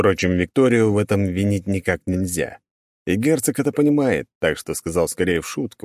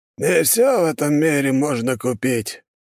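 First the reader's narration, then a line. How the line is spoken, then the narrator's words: Sad sigh, old man. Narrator (Russian): старик грустно вздохнул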